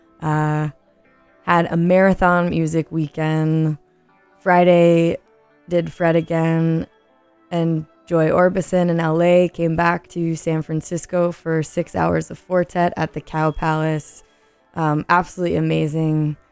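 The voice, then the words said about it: Slightly hoarse voice. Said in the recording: “my voice is maybe a little hoarse”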